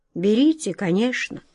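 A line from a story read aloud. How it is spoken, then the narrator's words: Quiet wizard's answer. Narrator (Russian): тихо ответил волшебник Алёша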